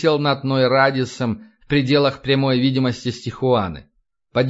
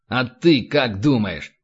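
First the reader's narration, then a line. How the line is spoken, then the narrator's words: Snapping retort. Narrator (Russian): огрызнулся Рэндалл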